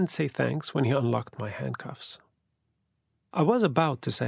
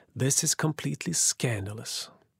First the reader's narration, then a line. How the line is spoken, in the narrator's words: I sighed and mumbled